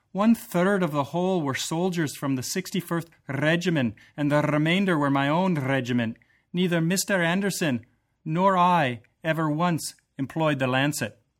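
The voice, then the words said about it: Bad put-on Scottish accent. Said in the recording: “my Scottish accent. That was brutal. ... That was operatic. ... That was awful.”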